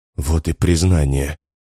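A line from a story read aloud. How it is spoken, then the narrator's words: Calm. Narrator (Russian): говорит спокойно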